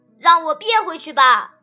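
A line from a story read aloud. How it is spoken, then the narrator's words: Silent inner shout. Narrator (Chinese): 他在心中大喊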